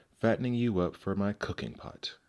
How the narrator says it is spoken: she snarled

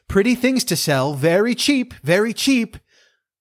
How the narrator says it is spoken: In this disguise … cried

